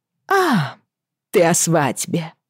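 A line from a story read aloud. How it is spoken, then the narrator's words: Laughing. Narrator (Russian): Рассмеялась она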